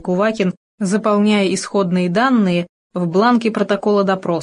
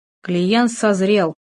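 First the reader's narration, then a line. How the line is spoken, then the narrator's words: Said grimly. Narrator (Russian): мрачно сказал Кувакин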